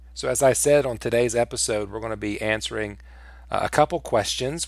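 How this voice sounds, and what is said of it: Weak, sick-sounding voice. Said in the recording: “my voice is not incredibly strong today... You may hear me sipping on some tea... I have been sick”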